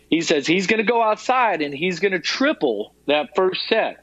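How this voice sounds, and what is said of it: Put-on Southern US accent. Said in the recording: “This is with a very Southern Georgia accent.”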